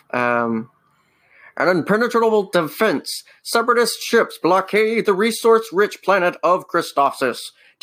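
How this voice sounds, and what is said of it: Imitates a dramatic narrator voice. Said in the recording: “The opening narration, I'm not going to do the voice ... it's basically just Admiral Yularen”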